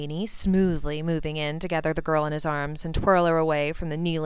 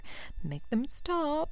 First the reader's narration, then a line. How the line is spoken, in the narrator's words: she whimpered